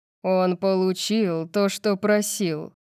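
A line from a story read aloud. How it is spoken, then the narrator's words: Growl. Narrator (Russian): прорычал Сет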